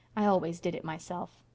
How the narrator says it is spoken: she added calmly

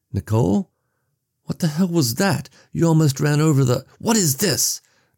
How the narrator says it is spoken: Nicole screamed, her voice cracking, echoing off the wooden facades of the houses

